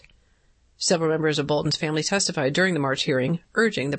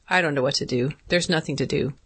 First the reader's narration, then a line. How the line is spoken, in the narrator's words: she said